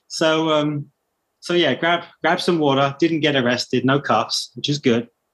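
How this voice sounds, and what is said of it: British accent. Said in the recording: “this British accent”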